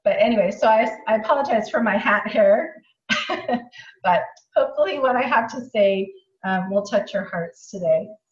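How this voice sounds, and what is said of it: Strained, unusual-sounding sick voice. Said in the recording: “I've just been sick, and so I've kind of had a rough night, and that's why my voice is so kind of crazy”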